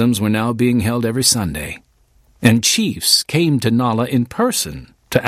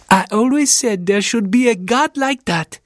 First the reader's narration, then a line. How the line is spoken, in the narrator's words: she exclaimed